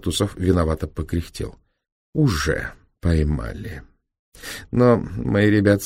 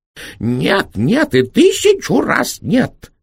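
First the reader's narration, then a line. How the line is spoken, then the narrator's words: Shrill furious shout. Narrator (Russian): визгливо закричал директор, стукнув кулаком по столу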